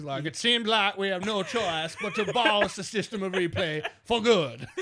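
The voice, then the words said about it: Imitates another person's voice. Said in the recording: “my Mark Emmert impression ... I was dead on.”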